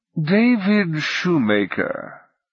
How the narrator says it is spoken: the god intoned

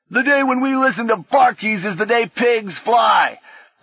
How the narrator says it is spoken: another shouted back

